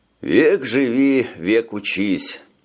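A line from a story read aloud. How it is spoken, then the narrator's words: Sighing. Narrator (Russian): вздохнул Брейн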